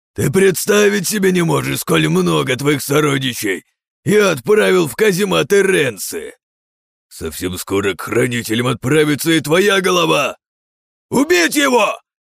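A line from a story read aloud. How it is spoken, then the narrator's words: Barking. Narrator (Russian): Рявкнул тот своим компаньоном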